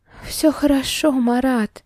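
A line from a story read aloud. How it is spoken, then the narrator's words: Breathed out. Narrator (Russian): выдохнула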